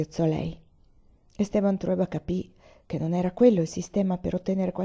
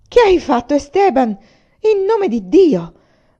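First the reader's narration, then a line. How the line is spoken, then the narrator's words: Alarmed mother's shout. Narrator (Italian): gridò, vedendo sua figlia coperta di sangue e di fango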